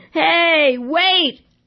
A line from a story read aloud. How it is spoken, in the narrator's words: yelled in a voice that rivaled